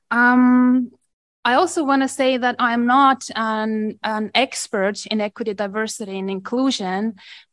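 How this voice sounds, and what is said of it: Eastern European (Estonian) accent. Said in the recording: “I do have an accent ... the accent from Eastern Europe ... I'm originally from Estonia”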